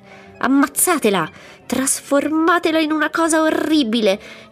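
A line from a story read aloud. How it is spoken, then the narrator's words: Furious shouting crowd. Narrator (Italian): avevano squarciato l'aria con grida furibonde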